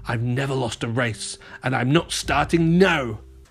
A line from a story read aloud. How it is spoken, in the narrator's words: Mayor Humdinger shouted